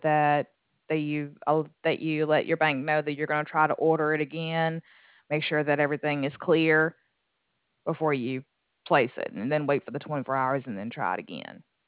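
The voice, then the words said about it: Southern US accent. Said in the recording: “it's kind of like Louisiana or Texas or something... You have a nice accent... Alabama and Georgia”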